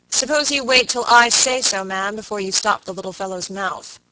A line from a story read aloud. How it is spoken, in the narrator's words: said Robert Audley sharply